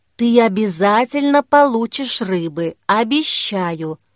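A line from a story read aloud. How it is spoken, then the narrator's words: Quiet. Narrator (Russian): Тихо сказала Кира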